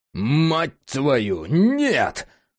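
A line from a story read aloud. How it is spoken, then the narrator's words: Sudden roar. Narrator (Russian): вдруг взревел Джек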